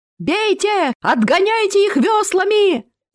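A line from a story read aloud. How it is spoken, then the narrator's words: Yelled. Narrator (Russian): заорал он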